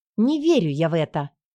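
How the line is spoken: Snapping. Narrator (Russian): Огрызнулась я

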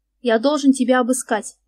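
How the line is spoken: Repeating with a snort. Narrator (Russian): повторил Марк и хмыкнул

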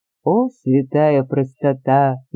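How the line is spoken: Awkward laugh. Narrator (Russian): неловко рассмеялся Вронский

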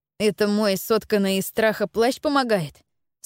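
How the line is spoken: Plain question. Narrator (Russian): спросил Стефан

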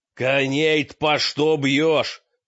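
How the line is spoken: Furious shout. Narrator (Russian): крикнул мрак яростно

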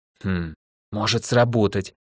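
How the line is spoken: Puzzled whisper. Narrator (Russian): озадаченно прошептала Ольга

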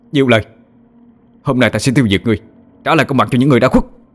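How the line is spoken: Loud shout. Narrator (Vietnamese): Anh hét lớn

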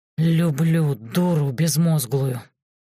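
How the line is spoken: Growling sorcerer. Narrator (Russian): рычал чародей

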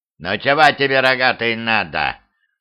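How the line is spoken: Grumpy creaky old woman. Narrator (Russian): сварливо проскрипела бабка

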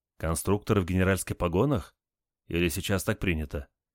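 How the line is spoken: Quiet question. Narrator (Russian): Один из генералов тихо спросил

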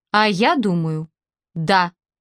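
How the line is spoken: Calm. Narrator (Russian): спокойно сказала Раиса Павловна

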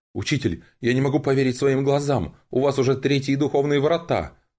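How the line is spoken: Astonished exclamation. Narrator (Russian): пораженно воскликнул Шу Цинь

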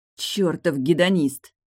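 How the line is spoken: Angry grumble. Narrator (Russian): злобно буркнула Тильда

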